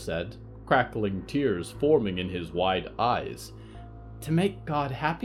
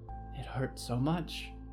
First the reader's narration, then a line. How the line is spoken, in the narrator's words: Al whimpered